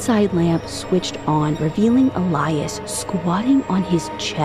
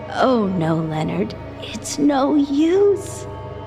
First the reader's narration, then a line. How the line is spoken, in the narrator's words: Elias squealed